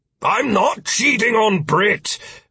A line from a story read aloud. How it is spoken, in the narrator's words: Philip shouted